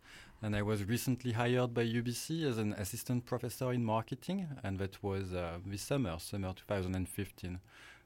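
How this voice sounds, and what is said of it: French accent in English. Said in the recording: “I'm French, as you might guess from my accent”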